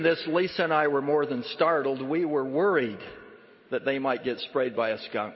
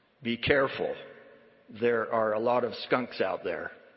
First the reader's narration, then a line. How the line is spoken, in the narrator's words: He said to them in his gravelly voice